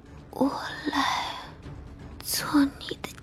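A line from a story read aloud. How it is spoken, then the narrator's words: Soft. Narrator (Chinese): 古精灵轻声道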